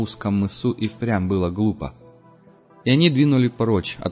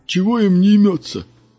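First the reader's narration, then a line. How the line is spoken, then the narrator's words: Grumbling. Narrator (Russian): ворчал Бюскермолин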